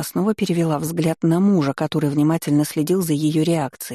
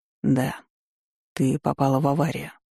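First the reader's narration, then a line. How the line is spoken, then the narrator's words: Quiet. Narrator (Russian): тихо произнес он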